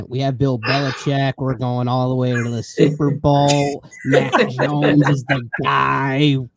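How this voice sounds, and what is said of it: Exaggerated Boston accent. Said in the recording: “I don't have a terrible Boston accent.”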